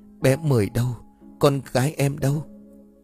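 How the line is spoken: Trembling woman. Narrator (Vietnamese): Cô liền run rẩy

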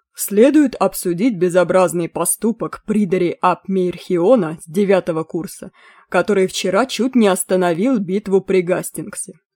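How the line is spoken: Stern. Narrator (Russian): строго сказал

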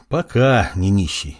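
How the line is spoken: Sighing. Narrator (Russian): вздохнул Маркус

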